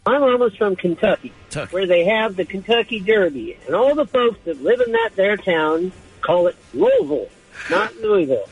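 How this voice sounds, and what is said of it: Southern Kentucky-style accent. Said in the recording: “I get this wild accent from a place I've never lived.”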